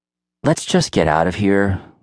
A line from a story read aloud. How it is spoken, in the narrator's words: Luke sighed, acting bored